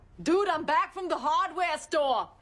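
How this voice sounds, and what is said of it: Bad Brooklyn-like accent. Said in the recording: “That horrible accent. Brooklyn, maybe?”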